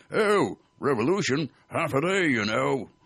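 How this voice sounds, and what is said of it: Posh British accent. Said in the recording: “in a splendid British accent said”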